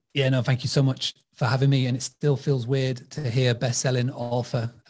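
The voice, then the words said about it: English accent. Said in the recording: “I'm very much not based in America with this accent. I'm over in England.”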